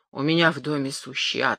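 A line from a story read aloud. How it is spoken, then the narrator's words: Plain. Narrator (Russian): сказал бедный Мушемиель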